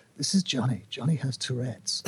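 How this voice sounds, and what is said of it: Serious documentary narrator voice. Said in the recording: “the narrator has a really serious voice.”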